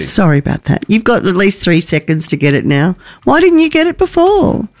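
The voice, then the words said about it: Nasal, congested snotty voice. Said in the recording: “this weird snotty voice ... my nasal voice”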